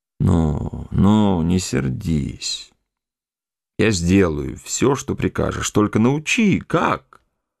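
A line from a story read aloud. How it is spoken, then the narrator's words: Plain. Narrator (Russian): сказал Петр Иванович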